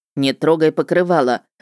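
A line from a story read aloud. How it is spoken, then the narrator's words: Barked. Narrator (Russian): рявкнул Влад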